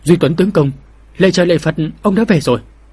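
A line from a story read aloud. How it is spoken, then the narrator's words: Trembling mother's voice. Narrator (Vietnamese): giọng nói run run của mẫu thân mình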